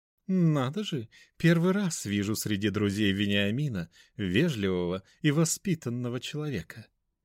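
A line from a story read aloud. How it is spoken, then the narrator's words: Almost cooing. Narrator (Russian): почти проворковала Екатерина Семеновна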